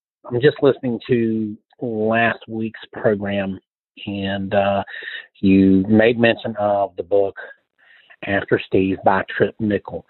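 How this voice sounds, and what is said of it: Southern US accent. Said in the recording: “the southern accent sounds misplaced ... born and raised in Charlotte, North Carolina”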